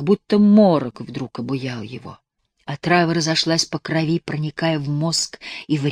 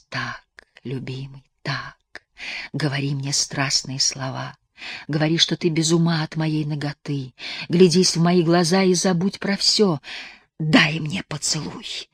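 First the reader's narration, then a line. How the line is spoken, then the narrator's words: Frenzied whisper. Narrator (Russian): вне себя прошептал Егор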